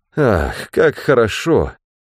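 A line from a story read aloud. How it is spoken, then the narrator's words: Sighed. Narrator (Russian): вздохнул Ганилон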